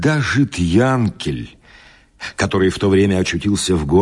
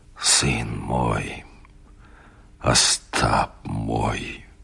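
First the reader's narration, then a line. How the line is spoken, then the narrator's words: Quiet, dejected. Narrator (Russian): он тихо, понурив голову, говорил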